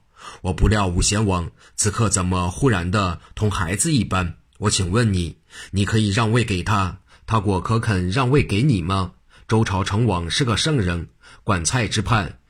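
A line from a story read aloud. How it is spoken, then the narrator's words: Hearty laughter. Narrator (Chinese): 徐天化听完，哈哈笑道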